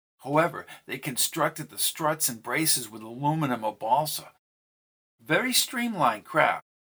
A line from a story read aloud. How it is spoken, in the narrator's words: She leaned closer and whispered